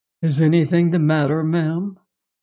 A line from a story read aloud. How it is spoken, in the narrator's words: asked in a mild voice